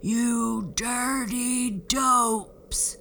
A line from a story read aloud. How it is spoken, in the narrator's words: boomed the giant